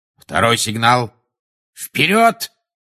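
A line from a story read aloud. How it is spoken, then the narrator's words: Barked command. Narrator (Russian): рявкнул Люпин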